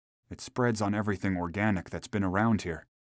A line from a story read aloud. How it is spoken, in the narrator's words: muttered the medical examiner